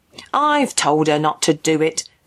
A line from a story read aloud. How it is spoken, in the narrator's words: the mother said sullenly, clearly annoyed both with her daughter and this interfering stranger